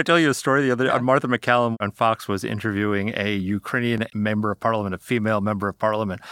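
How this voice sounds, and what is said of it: Usual voice. Nothing is said of it.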